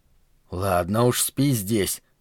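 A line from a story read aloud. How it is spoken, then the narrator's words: Mumbling. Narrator (Russian): пробормотал я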